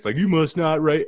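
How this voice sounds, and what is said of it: Put-on American country accent. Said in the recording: “I don't know why I give it a country accent.”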